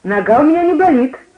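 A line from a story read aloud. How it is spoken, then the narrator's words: Cheerful. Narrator (Russian): весело говорил я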